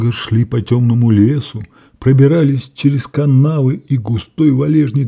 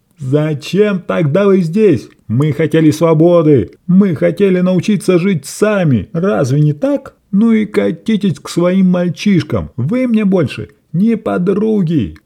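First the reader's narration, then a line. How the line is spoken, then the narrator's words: Bitter shout after them. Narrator (Russian): крикнула вслед удаляющимся Ю, О и И, потерявшая власть и влияние над ними, я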